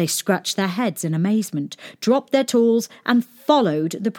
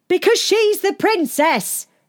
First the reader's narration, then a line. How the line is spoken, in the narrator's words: shouted the servants and the shepherd boy